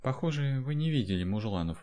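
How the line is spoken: Sighing. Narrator (Russian): вздохнула женщина

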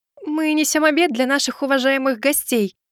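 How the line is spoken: Timid babbling. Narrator (Russian): начала лепетать Суин

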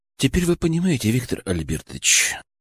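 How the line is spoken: Quiet speech. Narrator (Russian): заговорил тихо я

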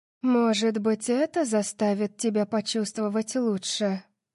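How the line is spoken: Purring. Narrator (Russian): промурлыкала Ашанти

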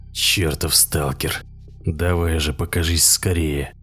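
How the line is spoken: Forced through gritted teeth. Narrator (Russian): сквозь зубы выдавил Корбит

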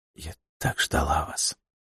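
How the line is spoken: Quiet. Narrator (Russian): проговорила февралитка тихо

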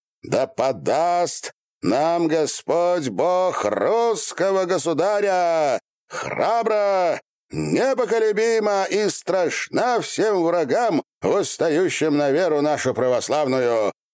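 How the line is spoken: Shouted. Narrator (Russian): прокричал

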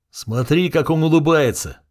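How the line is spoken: Shouting. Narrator (Russian): закричал я на паникующую Исиду

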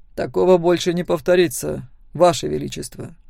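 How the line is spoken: Calm reply. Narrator (Russian): спокойно ответил Себастьян Торн

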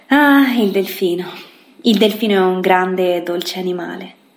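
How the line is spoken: Mother sighing. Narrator (Italian): Mamma ci vide, il gatto ed io, stesi sopra quella pagina e sospirò

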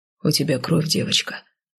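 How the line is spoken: Quiet. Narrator (Russian): негромко произнес Гер Кайл

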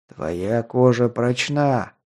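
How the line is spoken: Shadow's growl. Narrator (Russian): прорычала тень

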